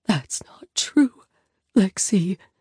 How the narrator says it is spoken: Mom whispers, and the pain on her face is breathtaking

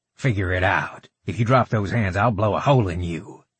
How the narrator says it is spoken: Howell growled

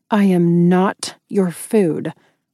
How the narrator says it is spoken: I said through clenched teeth

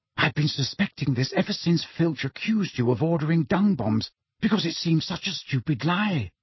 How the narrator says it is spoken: Hermione whispered

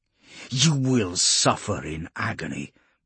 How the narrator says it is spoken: Polixis snarled, spittle flecking his lips

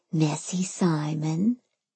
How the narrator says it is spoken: I whispered

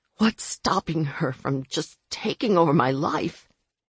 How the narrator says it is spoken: I rasped

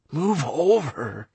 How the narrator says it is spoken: wheezed Anastaria

